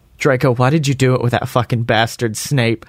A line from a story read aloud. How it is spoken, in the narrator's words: I asked tearfully